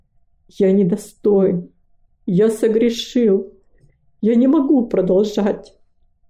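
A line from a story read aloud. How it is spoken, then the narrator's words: Quiet, tragic voice. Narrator (Russian): он произнес тихим, трагическим голосом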